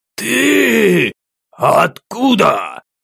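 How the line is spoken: Incredulous. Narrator (Russian): Неверящим голосом бросил Джунгар

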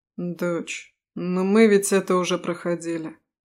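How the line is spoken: Weary sigh. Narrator (Russian): устало вздохнул папа

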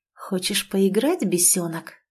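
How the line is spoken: Whispering under breath. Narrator (Russian): прошептал себе под нос Измайлов

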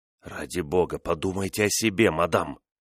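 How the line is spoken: Pleading whisper. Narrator (Russian): прошептал он умоляюще

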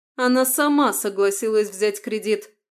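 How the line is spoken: Raised voice, shouting. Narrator (Russian): повысив голос, выкрикнула Станислава

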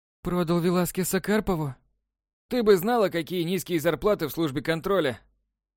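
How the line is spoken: Feigned sigh. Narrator (Russian): Делано вздохнул Краузе

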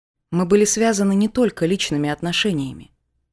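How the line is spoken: Calm. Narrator (Russian): спокойно ответил

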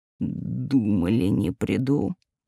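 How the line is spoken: Growl. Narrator (Russian): прорычал он в ответ

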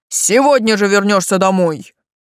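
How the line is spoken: Furious roar. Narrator (Russian): взревел князь, осознавший, что ходить ему с таким нестандартным украшением ни час и даже ни день

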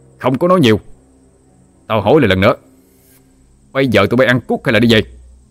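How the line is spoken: Angry roar. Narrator (Vietnamese): Lân gầm lên

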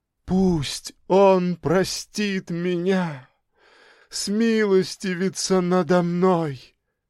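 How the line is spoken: Sobbing. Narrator (Russian): продолжала рыдать женщина

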